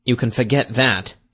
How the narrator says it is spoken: Rutherford said bitterly

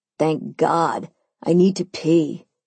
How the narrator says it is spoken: Simon groaned

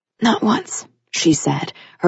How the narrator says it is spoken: her voice raspy from the painful sob she'd managed to hold back

